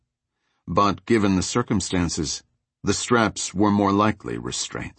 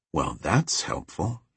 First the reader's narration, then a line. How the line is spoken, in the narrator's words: he whispered